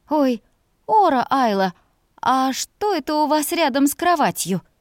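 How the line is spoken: Exclaimed. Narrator (Russian): воскликнула она

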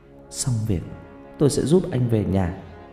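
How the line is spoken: Sobbing muttered promise. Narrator (Vietnamese): Tôi nức nở lên từng cơn không dứt, cố nén cơn thổn thức rồi lẩm bẩm, hứa hẹn

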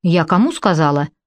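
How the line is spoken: Stern. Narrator (Russian): повторила строго красавица

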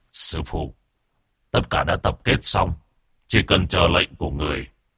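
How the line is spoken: Muttering. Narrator (Vietnamese): Từ Phúc lẩm bẩm

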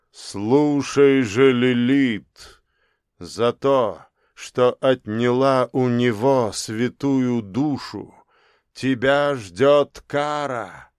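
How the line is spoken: Warrior's thunderous voice. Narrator (Russian): Один светящийся воин громовым голосом сказал

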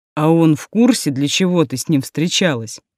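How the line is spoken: Scoffing grunt. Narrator (Russian): хмыкнул Берговец

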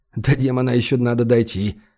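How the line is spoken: Wry snort. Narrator (Russian): хмыкнул он

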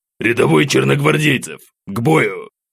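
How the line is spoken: Barked command. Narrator (Russian): рявкнул капитан

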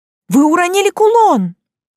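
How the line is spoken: Shouting into emptiness. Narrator (Russian): кричала уже в пустоту

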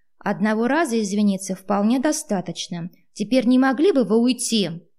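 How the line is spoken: Irritated man. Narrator (Russian): раздраженно произнес мужчина

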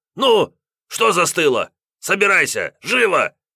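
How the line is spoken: Sharp shout. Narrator (Russian): Прикрикнул на жену хозяин

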